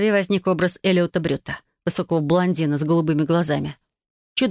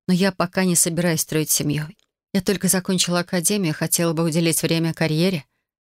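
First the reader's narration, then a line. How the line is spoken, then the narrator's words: Gentle. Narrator (Russian): начала мягко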